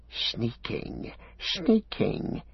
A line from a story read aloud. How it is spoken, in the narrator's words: he hissed